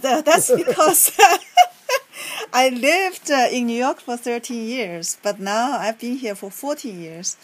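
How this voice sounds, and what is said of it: New York accent. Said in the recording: “you speak English with a New York accent”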